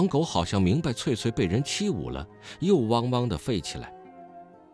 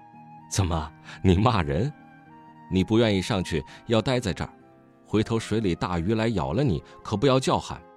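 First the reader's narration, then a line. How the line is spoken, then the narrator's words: Soft, smiling. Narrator (Chinese): 话虽轻轻的，那男的便带笑说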